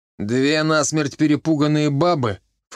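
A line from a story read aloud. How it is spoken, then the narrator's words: Snorted. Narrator (Russian): фыркнул Чибис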